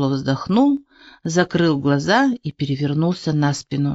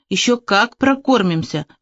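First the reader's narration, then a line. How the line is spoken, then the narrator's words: Even more plaintive shout. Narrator (Russian): еще жалобнее крикнул он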